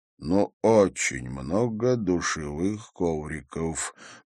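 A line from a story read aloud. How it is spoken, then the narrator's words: Muttering. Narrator (Russian): пробормотал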